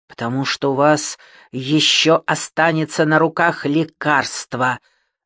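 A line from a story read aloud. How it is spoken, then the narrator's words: Hissing. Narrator (Russian): зашипела онколог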